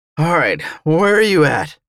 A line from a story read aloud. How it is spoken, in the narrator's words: I choked